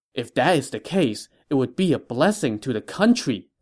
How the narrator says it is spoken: Lu Su exclaimed

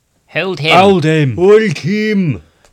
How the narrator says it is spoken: came the shouts

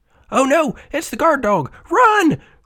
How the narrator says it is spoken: cried the city mouse

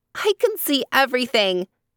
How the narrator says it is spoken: shouts Tembi

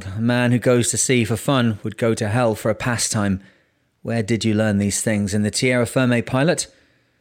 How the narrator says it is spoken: growled

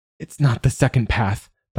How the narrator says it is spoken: blurts

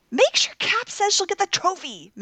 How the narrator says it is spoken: Min exclaimed through the speakers

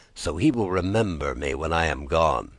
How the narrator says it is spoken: he said under his breath

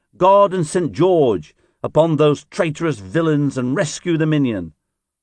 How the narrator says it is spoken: He shouted to his men

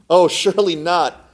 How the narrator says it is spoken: cried the man

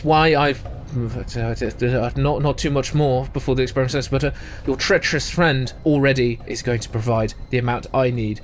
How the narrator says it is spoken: falters for a moment and says

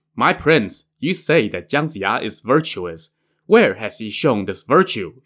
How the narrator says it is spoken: Shen Gongbao asked

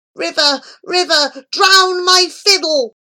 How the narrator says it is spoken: he cried out in his innermost soul

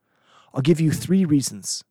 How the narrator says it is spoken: the son said

